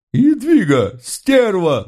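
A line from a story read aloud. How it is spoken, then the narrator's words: Offended she-devil howling. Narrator (Russian): взвыла обиженная чертовка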